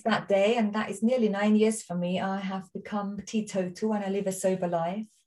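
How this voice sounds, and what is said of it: Austrian accent in English. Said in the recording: “people might think, where's she from? I'm Austrian, my accent.”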